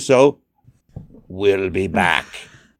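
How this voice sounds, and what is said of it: Imitates another person's voice. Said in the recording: “my good Arnold Schwarzenegger impersonation”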